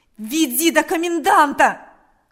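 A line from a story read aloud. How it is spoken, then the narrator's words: Shouting repeatedly. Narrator (Russian): кричал Степан снова и снова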